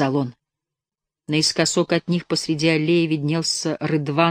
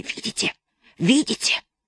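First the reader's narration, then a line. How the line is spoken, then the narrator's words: Hissing whispered question. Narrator (Russian): свистящим шепотом спрашивая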